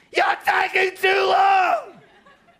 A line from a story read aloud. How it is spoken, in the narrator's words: some of us start screaming at him